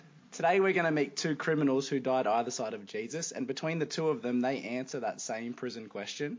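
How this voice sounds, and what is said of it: Usual voice. Nothing is said of it.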